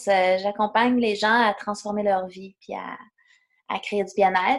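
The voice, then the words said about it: Québécois French accent. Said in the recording (French): “les gens auront reconnu ton accent. Tu vis au Québec.”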